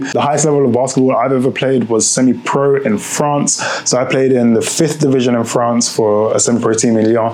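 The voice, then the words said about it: British accent. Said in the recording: “if you can hear from my accent, I'm from the UK”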